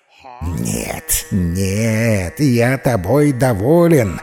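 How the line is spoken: Hissed through teeth. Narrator (Russian): сквозь зубы прошипел Муса

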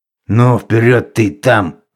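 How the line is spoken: Stern grumble through window. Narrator (Russian): заворчал суровый голос через окно

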